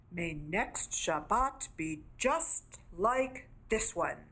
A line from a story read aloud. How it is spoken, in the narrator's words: Ra smiled triumphantly and said